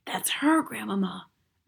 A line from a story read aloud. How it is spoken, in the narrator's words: I whispered